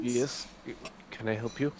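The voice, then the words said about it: Bad fake Polish accent. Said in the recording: “pretending to be Polish. Your accent is terrible.”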